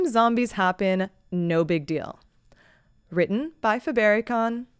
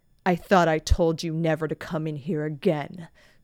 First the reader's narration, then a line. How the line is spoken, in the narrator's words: Quinn growled